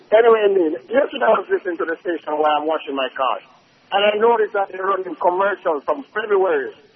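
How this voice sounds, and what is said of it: Jamaican accent. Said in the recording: “very bad accent ... I'm a Jamaican ... A Jamaican with a bad Jamaican accent”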